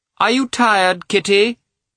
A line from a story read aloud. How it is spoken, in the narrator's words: the princess called out